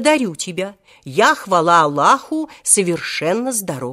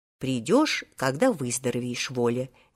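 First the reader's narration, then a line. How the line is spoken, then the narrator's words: Soft, gentle voice. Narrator (Russian): мягко сказал ему тогда директор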